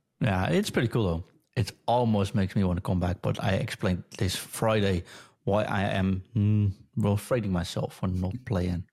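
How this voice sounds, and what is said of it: Nasal voice, sore throat. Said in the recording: “my throat is a little sore, so if I sound a bit nasal”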